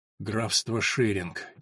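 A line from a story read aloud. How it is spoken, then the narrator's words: Barely audible mutter. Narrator (Russian): чуть слышно пробормотал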